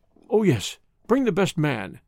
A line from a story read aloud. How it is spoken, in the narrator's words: cried Johnson